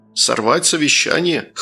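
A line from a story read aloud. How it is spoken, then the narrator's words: Scoffing. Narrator (Russian): хмыкнул Молох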